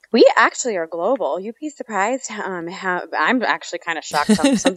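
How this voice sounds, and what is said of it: American accent. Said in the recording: “everyone's kind of pretty much have worked out from your accent that you're in the USA”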